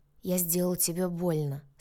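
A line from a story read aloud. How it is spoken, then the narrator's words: Remorseful sighing man. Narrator (Russian): сокрушенно вздохнул мужчина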